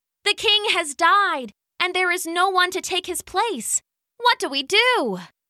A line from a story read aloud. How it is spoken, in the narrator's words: they cried